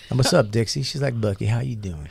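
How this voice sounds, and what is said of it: Put-on Southern accent. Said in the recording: “We talk in the southern... Southern accent... We talked in the southern accent. To everybody.”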